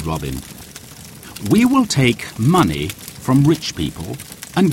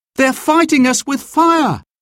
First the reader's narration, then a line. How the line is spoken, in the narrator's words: Will cried